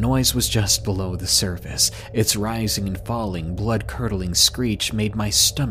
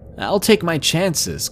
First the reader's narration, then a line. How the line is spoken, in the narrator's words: Keller shouted over the radio